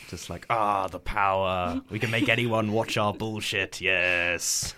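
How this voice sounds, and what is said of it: Imitates smug broadcasting executives. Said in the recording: “that's a pretty good impression of the people who run the BBC”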